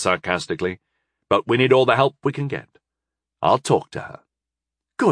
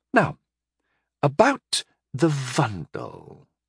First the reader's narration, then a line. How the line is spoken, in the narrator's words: she said hesitantly